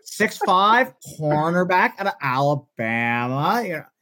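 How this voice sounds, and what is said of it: Mel Kiper impression. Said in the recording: “my Mel Kiper impression ... There's certain ticks. It's my favorite impression I do.”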